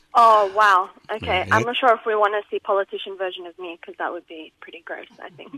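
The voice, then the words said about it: Slight accent with Middle Eastern element. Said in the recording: “I can pick up a little bit of an accent there ... It's not a very Australian accent ... there's a Middle Eastern element to it”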